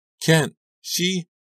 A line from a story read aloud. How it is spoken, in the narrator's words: I stammered